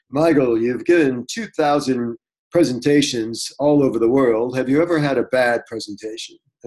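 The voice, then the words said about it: Imitated radio announcer voice. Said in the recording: “It was actually his radio voice.”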